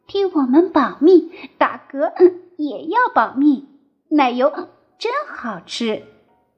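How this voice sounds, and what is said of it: Quiet, hushed voice. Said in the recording (Chinese): “小声地说”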